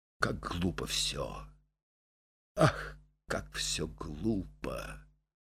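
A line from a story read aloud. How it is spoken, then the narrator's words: Mutter. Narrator (Russian): бормоча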